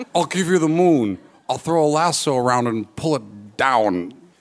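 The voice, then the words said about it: Poor imitation of another person's voice. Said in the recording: “best impression of Jimmy Stewart ... this is a terrible Jimmy Stewart”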